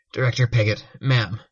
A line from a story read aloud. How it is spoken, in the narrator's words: Aegis greeted her, his voice strained